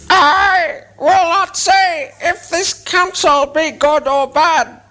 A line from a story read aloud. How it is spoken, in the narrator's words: croaked Roak